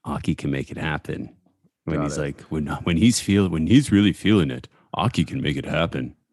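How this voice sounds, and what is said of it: Deep baritone Matt Warshaw impression. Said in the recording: “Matt Warshaw doing the voice, the narration ... Trying to do the deep baritone Matt Warshaw voice.”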